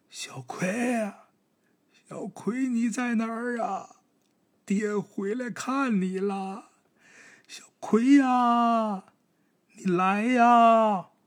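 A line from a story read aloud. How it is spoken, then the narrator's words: Repeated calling out. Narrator (Chinese): 一直就这声在那喊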